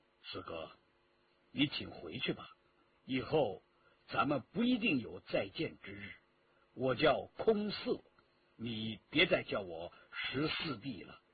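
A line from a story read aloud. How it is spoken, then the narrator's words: Cold. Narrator (Chinese): 硬起心肠，冷冷地说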